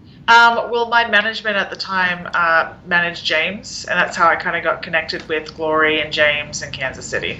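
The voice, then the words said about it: Mild Australian accent, slight American twang. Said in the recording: “Your accent's fading a little bit ... I wouldn't say, like, I've got a really strong Australian accent ... I'll have like a bit of an American twang ... I stick predominantly with the Australian accent”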